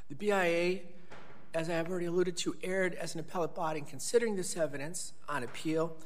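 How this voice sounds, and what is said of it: Congested voice from a cold. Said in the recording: “I have a cold. I hope my voice hasn't been too... Difficult to listen to.”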